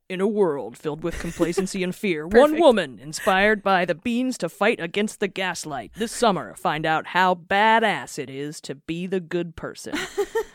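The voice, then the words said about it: Deep epic movie trailer voice. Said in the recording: “epic movie trailer voice ... I'm not great at a deep voice”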